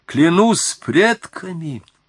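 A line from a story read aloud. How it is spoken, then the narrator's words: Exclaimed. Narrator (Russian): воскликнул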